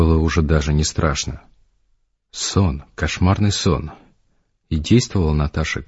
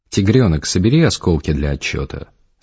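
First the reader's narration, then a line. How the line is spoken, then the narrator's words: Calm. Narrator (Russian): спокойно сказал Гарик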